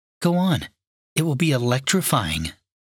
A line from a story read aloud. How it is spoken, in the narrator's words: she whispered